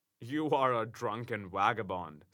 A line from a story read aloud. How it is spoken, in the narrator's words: said I